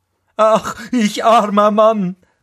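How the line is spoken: Called out. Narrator (German): rief er

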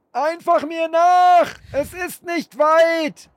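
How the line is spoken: Shout. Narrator (German): schrie der Unbekannte

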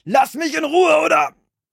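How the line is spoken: Shouted. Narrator (German): schrie mit erhobener Faust

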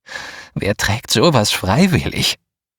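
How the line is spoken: Sigh. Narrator (German): Ich seufzte

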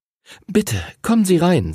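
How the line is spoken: Trembling voice, mother. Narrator (German): sagte Henrys Mutter mit zittriger Stimme

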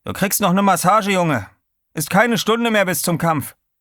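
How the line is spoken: Calling out. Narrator (German): rief er

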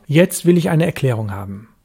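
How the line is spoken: Sharp. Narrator (German): sagte ich scharf

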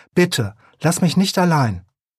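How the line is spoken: Calling out. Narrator (German): Er rief

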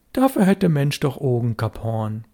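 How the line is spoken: Calm. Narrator (German): Störtebecker sagte ruhig

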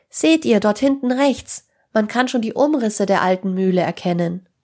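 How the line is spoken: Calling out. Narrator (German): rief Tim

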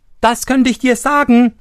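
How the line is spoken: Interrupting call. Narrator (German): rief Daumestick dazwischen

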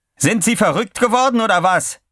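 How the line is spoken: Shouted. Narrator (German): schrie

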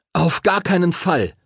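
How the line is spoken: Called out. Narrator (German): rief Henry

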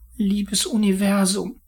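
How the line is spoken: Pleading. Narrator (German): flehte

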